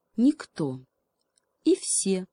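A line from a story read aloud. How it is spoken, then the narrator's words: Calm hedgehog. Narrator (Russian): спокойно ответил ему еж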